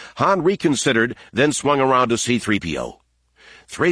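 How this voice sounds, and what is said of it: Usual voice. Nothing is said of it.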